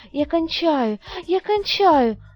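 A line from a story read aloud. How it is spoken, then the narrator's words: Exclaiming. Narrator (Russian): воскликнула Танечка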